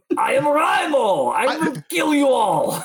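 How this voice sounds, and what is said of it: Cartoonish put-on Russian accent. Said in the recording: “the moose and squirrel Russian accent.”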